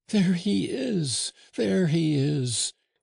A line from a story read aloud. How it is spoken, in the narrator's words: cried the Descoings, suddenly able to use her paralyzed tongue